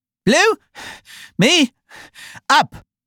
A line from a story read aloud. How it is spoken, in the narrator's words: panted the queen, who was still a little out of breath